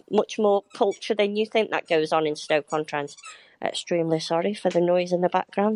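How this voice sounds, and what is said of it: Stoke Potteries (Staffordshire) accent. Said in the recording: “how lovely it was to hear a Stoke Potteries accent ... great accent. One I cannot do.”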